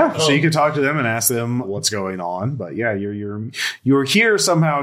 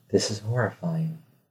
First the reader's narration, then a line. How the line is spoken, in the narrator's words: I just quietly mutter under my breath